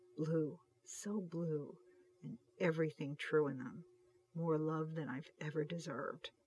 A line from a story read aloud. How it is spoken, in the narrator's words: Hutch whispered